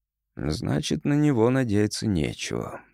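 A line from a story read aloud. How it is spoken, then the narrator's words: Rather glum. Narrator (Russian): сказал довольно уныло, потому что это была единственная вещь, применение которой нам было известно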